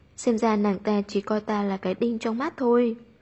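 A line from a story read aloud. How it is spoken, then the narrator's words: Cold scoff, inwardly afraid. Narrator (Vietnamese): Vu Thu Nguyệt trong lòng vẫn sợ hãi, hừ lạnh nói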